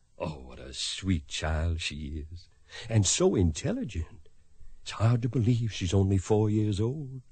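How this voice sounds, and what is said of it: Kentucky accent. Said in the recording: “I'd lose my Kentucky accent, but I can't seem to do it ... It's charming.”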